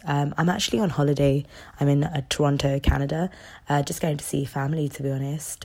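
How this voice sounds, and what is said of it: Congested voice from a cold. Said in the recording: “I've got a bit of a cold, so please bear with me with my voice”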